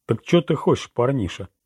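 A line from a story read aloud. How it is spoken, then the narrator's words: Deep bass voice. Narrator (Russian): пробасил капитан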